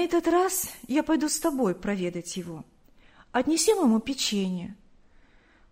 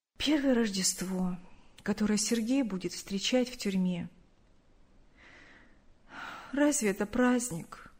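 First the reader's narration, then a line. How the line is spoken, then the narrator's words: Sad. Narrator (Russian): грустно сказала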